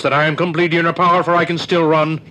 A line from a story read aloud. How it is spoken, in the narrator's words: cried Chupchus